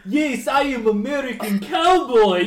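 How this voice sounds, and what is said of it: Cowboy voice with heavy Polish accent. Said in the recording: “a guy dressed up as a cowboy trying to do a cowboy accent. With a heavy Polish accent.”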